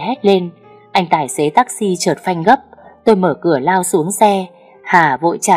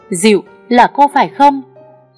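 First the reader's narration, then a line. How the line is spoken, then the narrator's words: Yelling. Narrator (Vietnamese): Tôi gào lên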